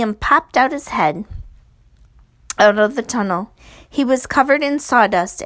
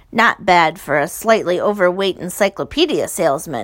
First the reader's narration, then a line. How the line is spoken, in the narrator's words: said